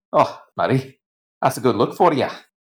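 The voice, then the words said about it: Sarcastic delivery. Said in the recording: “say that sarcastically”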